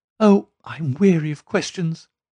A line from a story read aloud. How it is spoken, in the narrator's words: cried Miss Cushing impatiently